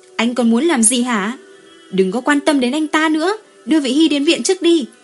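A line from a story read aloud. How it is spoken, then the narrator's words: Crying scream. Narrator (Vietnamese): Như Phi khóc thét lên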